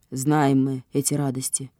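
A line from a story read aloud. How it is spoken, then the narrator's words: Father's grumble. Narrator (Russian): буркнул папочка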